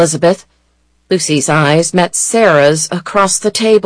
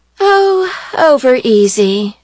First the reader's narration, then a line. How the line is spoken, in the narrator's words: said Elizabeth, seductively drawling the words